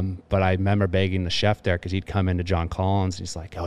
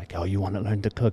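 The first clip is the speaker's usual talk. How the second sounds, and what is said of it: Put-on French accent. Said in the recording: “It's super French. ... I don't know if that accent's right.”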